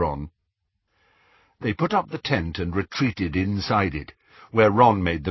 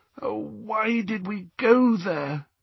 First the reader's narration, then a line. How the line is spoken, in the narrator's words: groaned Hermione after a few minutes' silence